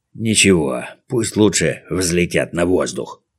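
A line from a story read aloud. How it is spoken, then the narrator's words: Grumbled. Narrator (Russian): проворчала другая голова голосом Спруца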